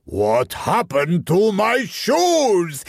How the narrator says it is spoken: His voice thundered across the bathhouse, shouting and cursing

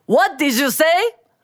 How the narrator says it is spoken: the booming voice behind them, and it was Mr

